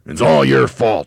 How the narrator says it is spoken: yelled Mr

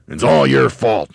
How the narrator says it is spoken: yelled Mr

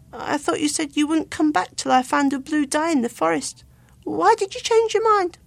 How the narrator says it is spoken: He did venture to ask timidly

